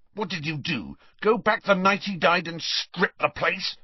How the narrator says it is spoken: snarled Harry

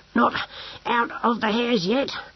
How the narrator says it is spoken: panted Brocando

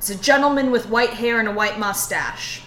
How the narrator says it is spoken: I would yell at the bartender

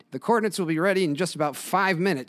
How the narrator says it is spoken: she exclaims to Ted, her voice box volume cranked up to the equivalent of a shout

